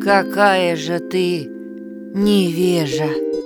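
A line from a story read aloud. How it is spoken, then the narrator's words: Calm, without anger. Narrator (Russian): отвечала волшебница спокойным голосом, безо всякого, впрочем, гнева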